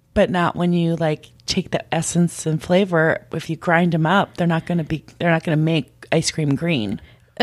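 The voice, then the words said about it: Scratchy voice. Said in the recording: “my voice is scratchy now”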